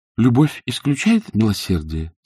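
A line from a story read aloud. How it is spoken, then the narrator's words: Plain question. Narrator (Russian): спросила Ингрид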